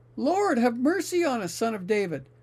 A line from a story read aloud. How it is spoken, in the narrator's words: they cried all the louder, saying